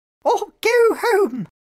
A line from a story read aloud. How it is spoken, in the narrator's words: Winnie's pirates shouted